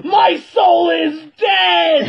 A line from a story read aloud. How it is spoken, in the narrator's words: As the entire Glee Club is just screaming and stomping, and then one of them shouts out